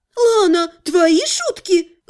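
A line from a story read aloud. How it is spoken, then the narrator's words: Indignant exclamation, healer. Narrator (Russian): возмущенно воскликнула целительница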